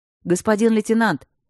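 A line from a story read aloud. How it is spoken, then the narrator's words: Soldier shouting. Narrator (Russian): крикнул один из солдат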